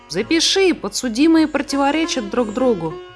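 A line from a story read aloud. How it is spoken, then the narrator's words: Exclamation. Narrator (Russian): воскликнул Сниф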